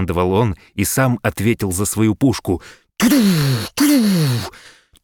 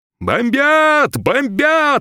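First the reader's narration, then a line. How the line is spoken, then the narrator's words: Shout from the street. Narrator (Russian): кричал кто-то на улице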